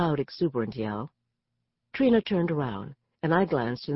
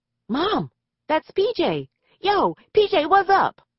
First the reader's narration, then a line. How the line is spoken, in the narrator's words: Trina screamed out the window